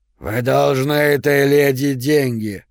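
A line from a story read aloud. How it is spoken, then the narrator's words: Hoarse near-whisper. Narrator (Russian): произнес охрипшим до шепота голосом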